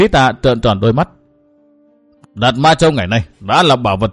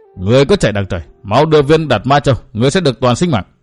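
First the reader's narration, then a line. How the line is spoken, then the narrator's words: Sneering shout. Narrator (Vietnamese): Cười gần một tiếng, Trường Hận quát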